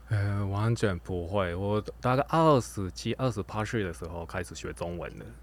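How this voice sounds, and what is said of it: Mandarin with a Japanese accent. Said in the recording (Chinese): “这个声音完全是呃有点带日文腔调的 ... 我有日本的口音”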